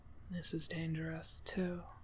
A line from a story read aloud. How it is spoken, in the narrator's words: he murmurs